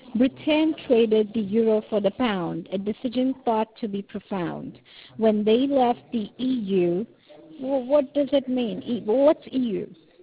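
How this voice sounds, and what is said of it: British-sounding accent. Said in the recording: “you got the British accent ... I grew up in South Africa, so I have a funny accent”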